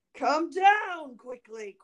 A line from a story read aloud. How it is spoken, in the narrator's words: cried Bluebeard